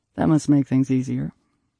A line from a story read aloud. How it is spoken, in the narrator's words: Jude said flatly